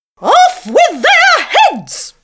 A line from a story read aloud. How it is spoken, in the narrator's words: she cried